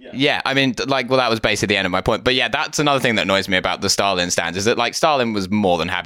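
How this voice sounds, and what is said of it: Usual voice. Nothing is said of it.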